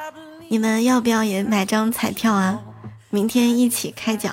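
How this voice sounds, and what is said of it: Usual voice. Nothing is said of it.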